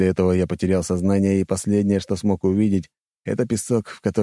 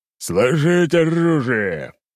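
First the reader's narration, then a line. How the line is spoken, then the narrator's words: Thundering command. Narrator (Russian): голос князя прогремел над всем поместьем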